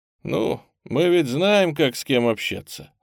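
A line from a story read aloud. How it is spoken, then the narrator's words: Dry chuckle. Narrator (Russian): сухо усмехнулся тот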